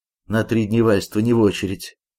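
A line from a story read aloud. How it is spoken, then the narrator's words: Hoarse, exhausted, dejected voice. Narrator (Russian): говорит упавшим голосом искричавшийся измученный унтер-офицер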